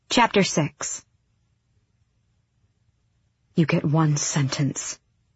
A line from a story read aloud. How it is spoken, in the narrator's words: Aelin breathed in the woman's ear